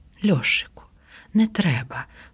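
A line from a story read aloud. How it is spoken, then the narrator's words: Quiet. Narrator (Ukrainian): промовила тихо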